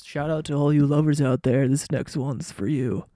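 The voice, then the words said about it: Radio host voice. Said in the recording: “I sound like a radio host.”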